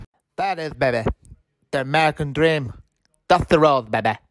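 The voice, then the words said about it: Bad Dusty Rhodes impression. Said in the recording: “Worst impression ever.”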